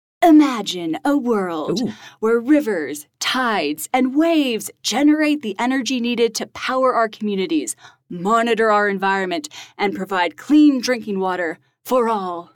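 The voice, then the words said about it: Dramatic movie trailer announcer voice. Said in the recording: “give it your best movie trailer voice ... That was good ... I was trying to channel Taylor a little bit in that. I know he has a great announcer voice.”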